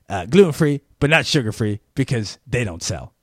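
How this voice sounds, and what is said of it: Imitates another person's voice. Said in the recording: “this is my impression ... that was my interpretation of how she came across”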